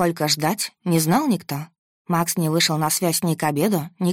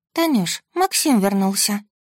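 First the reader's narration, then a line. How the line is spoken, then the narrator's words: Sleepy voice. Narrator (Russian): заспанным голосом сообщила подруга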